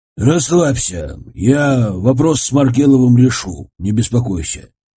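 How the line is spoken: Plain. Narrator (Russian): ответил наконец Цвигун

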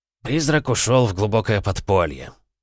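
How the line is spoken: Level voice. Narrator (Russian): ровным голосом сообщил Добрынин

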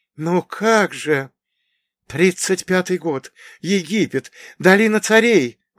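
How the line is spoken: Old man exclaiming. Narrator (Russian): воскликнул старик

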